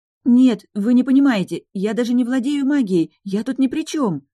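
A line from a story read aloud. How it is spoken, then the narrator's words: Pleading. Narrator (Russian): взмолилась она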